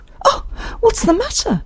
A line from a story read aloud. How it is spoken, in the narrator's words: exclaimed